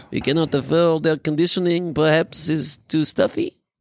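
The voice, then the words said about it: Put-on French accent. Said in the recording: “you don't like my French accent ... my French museum owner”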